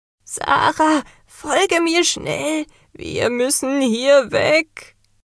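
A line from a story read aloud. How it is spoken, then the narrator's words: Woman calling out. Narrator (German): rief die Meisterin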